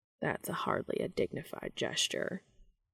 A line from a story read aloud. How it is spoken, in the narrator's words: Cass muttered